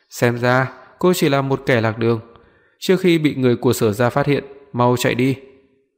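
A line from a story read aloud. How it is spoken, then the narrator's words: Calm, indifferent voice. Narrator (Vietnamese): Bóng đen không bật cười trước câu hỏi của cô, chỉ nhắm mắt thản nhiên nói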